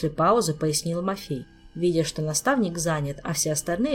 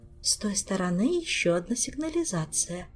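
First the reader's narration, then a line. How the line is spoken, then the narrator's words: Soft rustling whisper. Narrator (Russian): тихо прошелестела матресса Алиенна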